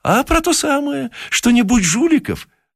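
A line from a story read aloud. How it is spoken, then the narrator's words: Cheerful answer. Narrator (Russian): ответил весело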